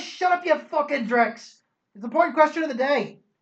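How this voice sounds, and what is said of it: Triumphant shouting character voice. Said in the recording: “in a triumphant voice that quiets the entire thing down almost instantly”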